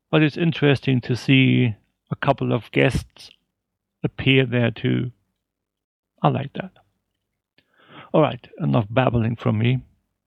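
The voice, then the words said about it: Speaks with a German accent. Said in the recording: “I like his accent ... His accent had something in there that I didn't understand. What is gnome in German?”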